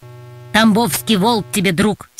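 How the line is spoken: Curt angry retort. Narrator (Russian): сердито отрезал хозяин собаки

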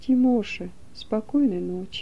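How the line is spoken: Soft quiet voice. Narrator (Russian): тихо скажет

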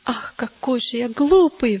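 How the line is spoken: Sudden exclamation. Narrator (Russian): вдруг воскликнул он

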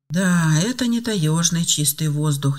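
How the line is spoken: Girl's involuntary sigh. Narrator (Russian): невольно вздохнула девушка

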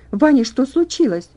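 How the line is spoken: Very loud exclamation. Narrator (Russian): воскликнула она так громко, что проснулись другие больные

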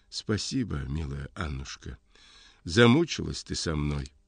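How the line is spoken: Faint moaning voice. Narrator (Russian): Он тихо стонет и говорит чуть слышно

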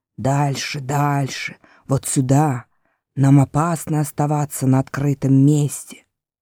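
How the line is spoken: Hoarse guttural voice. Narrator (Russian): сказав хриплым гортанным голосом

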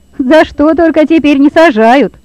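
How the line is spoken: Exclaiming, Hungarian man. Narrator (Russian): воскликнул механик, венгр по национальности

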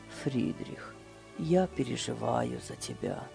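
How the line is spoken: Said quietly. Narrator (Russian): тихо сказал

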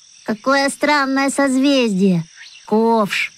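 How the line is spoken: Surprised drawl. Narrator (Russian): удивленно протянула Даша

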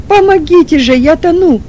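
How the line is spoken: Shouting again. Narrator (Russian): снова крикнул Чернов

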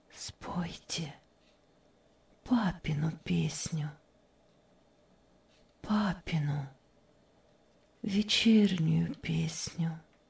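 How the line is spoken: Barely audible request. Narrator (Russian): Мария чуть слышно попросила

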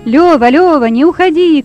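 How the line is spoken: Shouting. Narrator (Russian): кричал Петя Фомин

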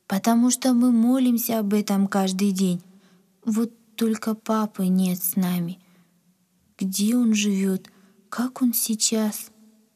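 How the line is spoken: Sad. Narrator (Russian): грустно сказала Надя

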